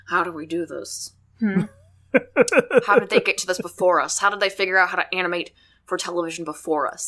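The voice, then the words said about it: Imitates another person's voice. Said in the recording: “This is my impression... This is my Walt Disney impression.”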